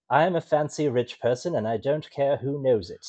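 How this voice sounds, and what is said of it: Bad, hoity-toity British accent. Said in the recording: “fancy talk North American thing ... That sounds like a bad British accent ... hoity-toity ... yeah, that's British.”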